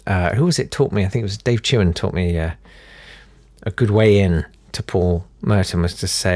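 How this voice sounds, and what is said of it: Usual voice. Nothing is said of it.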